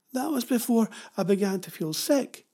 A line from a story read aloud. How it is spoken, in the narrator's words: blurted Jenny